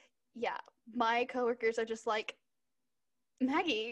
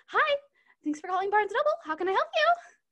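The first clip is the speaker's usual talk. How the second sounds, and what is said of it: Bright customer service phone voice. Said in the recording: “I have my customer service voice ... you sound way different”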